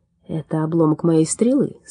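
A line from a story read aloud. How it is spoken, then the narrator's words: Calm explanation. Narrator (Russian): спокойно объяснил он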